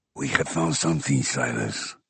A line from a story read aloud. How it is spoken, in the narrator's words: Ramos responded in a low, confidential tone